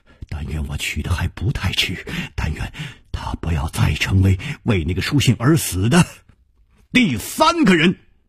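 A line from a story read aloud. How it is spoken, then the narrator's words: Murmured. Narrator (Chinese): 他喃喃的说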